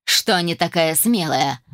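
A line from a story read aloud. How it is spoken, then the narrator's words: Laughing. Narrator (Russian): рассмеялся мужчина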